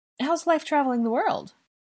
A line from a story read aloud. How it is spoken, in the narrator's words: Angelina chuckled